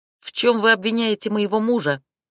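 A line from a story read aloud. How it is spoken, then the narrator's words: Barked. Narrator (Russian): рявкнула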